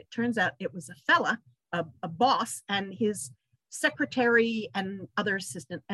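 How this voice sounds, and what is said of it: Anglo-Australian accent. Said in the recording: “you have an Australian accent. ... A sort of Anglo-Australian.”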